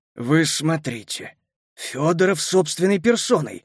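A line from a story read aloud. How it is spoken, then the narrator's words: Exclamation. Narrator (Russian): воскликнул он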